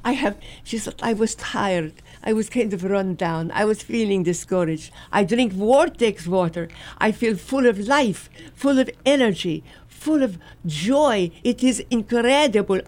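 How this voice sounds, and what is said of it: Put-on French accent. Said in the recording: “with beautiful French accent ... Gary is teaching me how to do it in French just perfectly”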